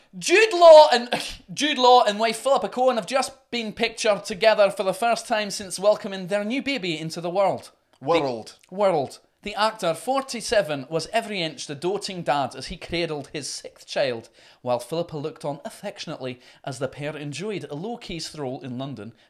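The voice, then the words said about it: Shouty put-on Scottish accent. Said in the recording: “Let me try the Jude Law story in Scottish ... Shouty and drunk. That's how you do Scottish.”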